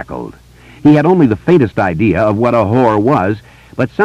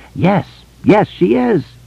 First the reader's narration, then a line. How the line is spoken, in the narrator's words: Beverly gasped, laughing and crying at the same time